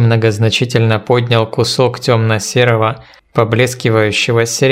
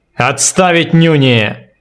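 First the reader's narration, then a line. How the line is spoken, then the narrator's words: Menacing bark. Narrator (Russian): Грозно гаркнул командир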